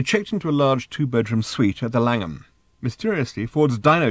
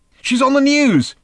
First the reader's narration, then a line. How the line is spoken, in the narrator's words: shouted Arthur from the next room